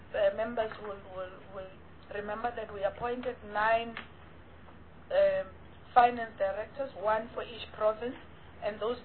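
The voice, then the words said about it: Strained, unwell-sounding voice. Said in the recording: “sorry for my voice.”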